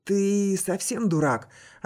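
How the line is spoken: Hoarse reply. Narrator (Russian): отозвалась хриплая

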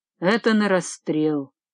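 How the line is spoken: Gloomy. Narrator (Russian): Брауда мрачно сказала

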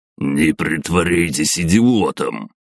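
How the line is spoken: Growl. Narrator (Russian): прорычал директор казино

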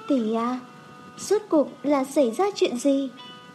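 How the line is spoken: Soft. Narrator (Vietnamese): Khương Trầm Ngư khẽ nói

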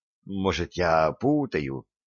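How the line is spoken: Mutter. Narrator (Russian): пробормотал

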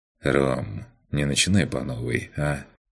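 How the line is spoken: Sighing. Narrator (Russian): Макс вздохнул

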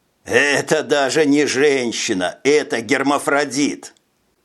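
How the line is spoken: Exhausted from laughing. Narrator (Russian): Не унимался обессилевший от хохота Стас

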